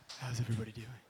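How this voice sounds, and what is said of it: Quiet, low sexy voice. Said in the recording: “We can't hear you when you do sexy that... Sexy voice.”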